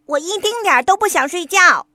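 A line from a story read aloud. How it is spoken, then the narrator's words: Loud shout. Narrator (Chinese): 霹雳鼠大叫道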